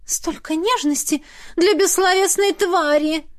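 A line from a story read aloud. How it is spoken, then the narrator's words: Theatrical sigh. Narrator (Russian): патетично вздохнула Лизавета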